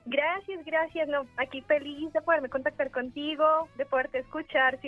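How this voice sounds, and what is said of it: Colombian Spanish accent. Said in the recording (Spanish): “ese acento de de dónde es. No es de aquí de la Cuauhtémoc, no es de, por acá de Cuautitlán Izcalli. ... Yo soy de Colombia.”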